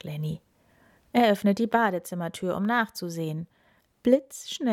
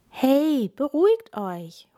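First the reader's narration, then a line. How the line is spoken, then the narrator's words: Calling out, interrupting. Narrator (German): ruft Lenny dazwischen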